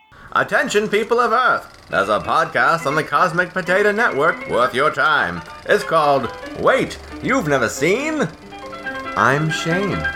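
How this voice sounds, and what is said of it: Old-timey radio announcer voice. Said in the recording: “old-timey radio voice.”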